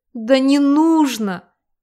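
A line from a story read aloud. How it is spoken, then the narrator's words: Sobbing. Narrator (Russian): Всхлипнула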